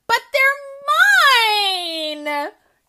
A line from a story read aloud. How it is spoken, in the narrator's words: Ellie howled